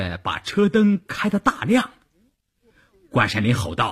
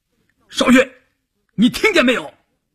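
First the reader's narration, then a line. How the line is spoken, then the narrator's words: Calling out. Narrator (Chinese): 关山林喊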